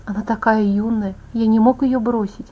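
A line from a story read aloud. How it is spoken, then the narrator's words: Whispered repetition. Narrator (Russian): шепотом повторил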